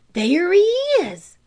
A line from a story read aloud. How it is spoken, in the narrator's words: cried Tom